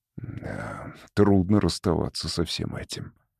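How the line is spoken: Mumbling. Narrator (Russian): пробормотал он

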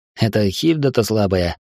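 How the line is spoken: Wry snort. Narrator (Russian): хмыкнул я

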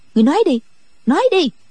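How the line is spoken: Harsh, urging. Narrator (Vietnamese): Chỉ nghe giọng Đinh Mẫn Quân gay gắt dục

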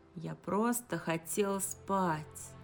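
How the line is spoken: Sad. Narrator (Russian): грустно произнес он

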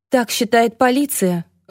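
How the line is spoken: Sighing. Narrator (Russian): вздохнула Рокси

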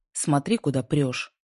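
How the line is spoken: Sharp curt retort. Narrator (Russian): резко бросил он

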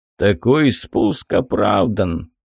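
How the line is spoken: Heavy sigh. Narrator (Russian): тяжело вздохнул Ргун

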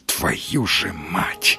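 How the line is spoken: Admiring whisper. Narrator (Russian): прошептал Сергей с восхищением

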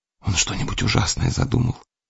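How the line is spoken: Shuddering near-whisper. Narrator (Russian): проговорила она почти шепотом, про себя чуть не содрогаясь

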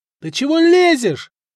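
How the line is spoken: Group shouting. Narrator (Russian): заорали те на него

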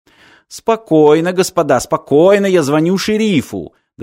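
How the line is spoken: Shouting bartender. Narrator (Russian): закричал бармен, будто посетители салуна уже впали в панику

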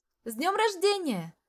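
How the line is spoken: Group shout in unison. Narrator (Russian): прокричали все почти даже в один голос

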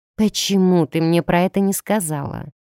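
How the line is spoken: Heavy sigh. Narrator (Russian): Тяжко вздохнула

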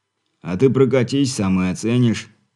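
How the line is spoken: Snort, then speaks. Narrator (Russian): хмыкнув, подал голос Бурый

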